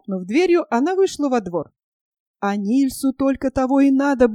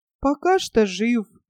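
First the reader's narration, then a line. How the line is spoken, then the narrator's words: Glum reply. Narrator (Russian): уныло ответил Мартин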